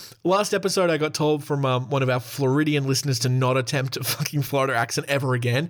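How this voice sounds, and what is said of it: Usual voice. Nothing is said of it.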